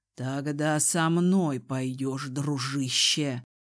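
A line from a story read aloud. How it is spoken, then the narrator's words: Hiss. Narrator (Russian): прошипел Дезмонд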